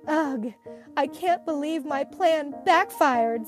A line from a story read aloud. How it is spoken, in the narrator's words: Zeta moaned